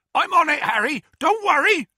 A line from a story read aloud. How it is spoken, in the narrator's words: Hagrid yelled